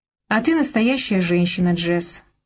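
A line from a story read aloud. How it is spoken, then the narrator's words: Calm. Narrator (Russian): он сказал это спокойно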